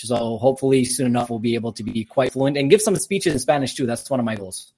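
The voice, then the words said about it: Slight Armenian-influenced accent. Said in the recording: “I'm born in Canada, but I'm Armenian descent. Both my parents are Armenian, so that's where my little accent comes from.”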